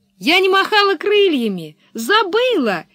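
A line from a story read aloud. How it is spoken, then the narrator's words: Cheerful explanation. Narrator (Russian): весело объяснила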